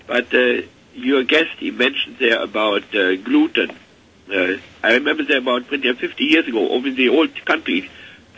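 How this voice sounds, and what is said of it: Strained, unwell-sounding voice. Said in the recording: “my voice is not quite up to snuff”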